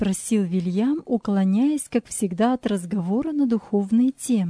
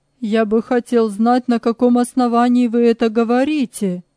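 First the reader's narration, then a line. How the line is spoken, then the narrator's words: Curious, uneasy exclamation. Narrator (Russian): воскликнул Джексон с любопытством, смешанным с беспокойством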